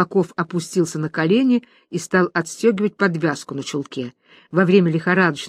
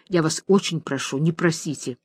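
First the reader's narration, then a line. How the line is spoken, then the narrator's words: Whisper. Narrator (Russian): Он шепотом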